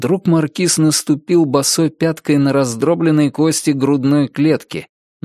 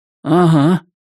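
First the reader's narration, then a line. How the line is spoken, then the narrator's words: Grumbled. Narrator (Russian): проворчал Ричард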